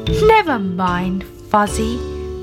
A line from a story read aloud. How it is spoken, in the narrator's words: said Grandpa Ted